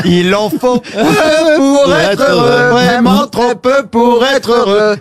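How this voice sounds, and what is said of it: Put-on Antillean French accent. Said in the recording (French): “pourquoi tu fais ça avec l'accent antillais?”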